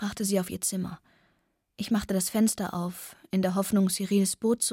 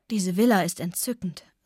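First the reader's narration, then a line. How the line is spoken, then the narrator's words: Sighing. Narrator (German): seufzte sie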